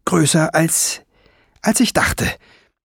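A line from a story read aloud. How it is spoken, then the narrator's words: Stammering. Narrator (German): stammelte sie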